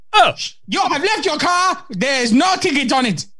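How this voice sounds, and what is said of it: Shouting angry car park attendant voice. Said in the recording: “An angry Chinese car park attendant ... Why are you shouting at me?”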